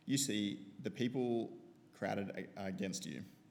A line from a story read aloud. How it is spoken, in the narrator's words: his disciple answered